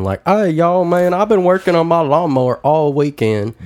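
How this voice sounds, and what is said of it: Exaggerated thick Southern accent. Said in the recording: “a very thick accent that we don't normally have ... a southern accent”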